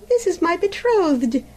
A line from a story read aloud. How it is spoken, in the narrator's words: exclaimed the princess joyfully